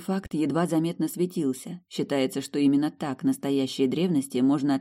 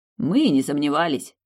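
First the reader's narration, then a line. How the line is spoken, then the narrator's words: Snorting childhood friend. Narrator (Russian): фыркнул друг детства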